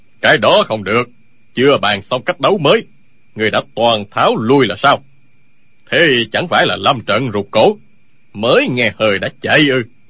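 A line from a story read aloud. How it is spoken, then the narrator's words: Old man, loud. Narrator (Vietnamese): Lão nhân cao lớn tiếng nói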